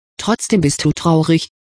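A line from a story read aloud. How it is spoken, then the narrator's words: Plain. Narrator (German): sagte Winona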